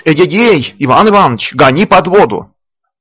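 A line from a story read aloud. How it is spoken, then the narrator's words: Shouting crowd. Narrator (Russian): Кричали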